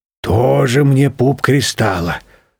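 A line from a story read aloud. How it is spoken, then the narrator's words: Grumbling. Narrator (Russian): ворчал темно-красный шарик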